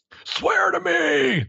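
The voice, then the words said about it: Bad Batman voice impression. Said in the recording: “I'd say we could do a bad Batman voice impression”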